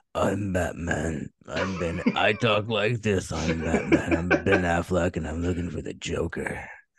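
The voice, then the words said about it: Batman voice impression. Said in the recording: “You should do a Batman voice.”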